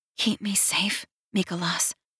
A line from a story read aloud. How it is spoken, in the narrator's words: whisper